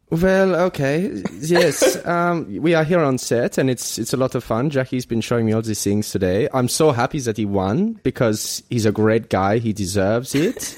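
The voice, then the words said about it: Put-on accent. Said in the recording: “I'm not sure how this accent is coming across”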